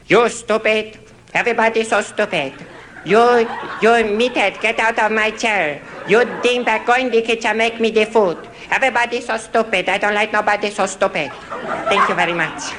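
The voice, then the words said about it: Terrible Archie Bunker impression, foreign voice. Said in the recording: “Foreign Man ... a nebbishy, very soft-spoken, very terrified little foreign man ... do a terrible impression ... Archie Bunker”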